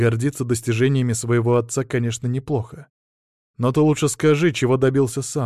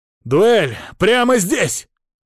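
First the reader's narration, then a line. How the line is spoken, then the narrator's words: Out-of-control young man's shout. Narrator (Russian): выкрикнул парень, явно теряя контроль над собой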